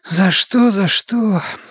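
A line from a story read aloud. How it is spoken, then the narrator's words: Displeased mutter. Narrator (Russian): забормотала недовольно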